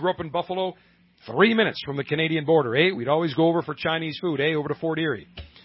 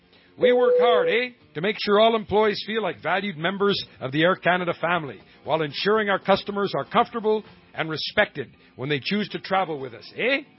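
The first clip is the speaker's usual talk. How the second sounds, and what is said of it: Put-on Canadian accent. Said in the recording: “I'm going to do this in my Canadian accent”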